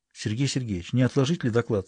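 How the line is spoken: Quiet question. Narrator (Russian): спрашивала тихо Полина Александровна

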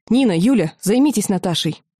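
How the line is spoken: Sharp shout. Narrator (Russian): Лина прикрикнула

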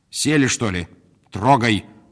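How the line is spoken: Barely restrained shout. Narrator (Russian): крикнула Арина Петровна, едва сдерживая себя

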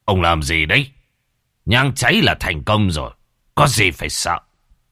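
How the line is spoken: Irritable snap. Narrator (Vietnamese): Đạo tiểu gắt

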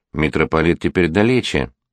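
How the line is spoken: Sighing. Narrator (Russian): Никола вздохнул

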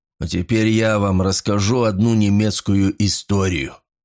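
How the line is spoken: Growled. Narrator (Russian): зарычал Батис

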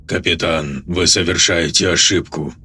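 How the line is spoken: Calm, composed. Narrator (Russian): сказал Линь тем же спокойным голосом, как будто между ними ничего не произошло

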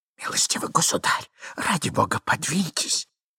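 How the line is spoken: Miserable whisper. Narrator (Russian): прошептал несчастный Иван Андреевич

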